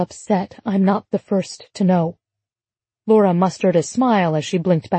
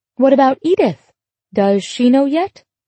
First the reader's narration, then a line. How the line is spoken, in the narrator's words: Laura's cheerfully casual tone rang false